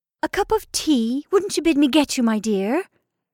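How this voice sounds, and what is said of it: Obsequious, fawning character voice. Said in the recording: “in an obsequious voice”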